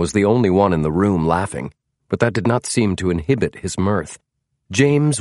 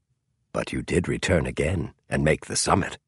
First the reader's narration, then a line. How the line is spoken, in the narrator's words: John Hay said softly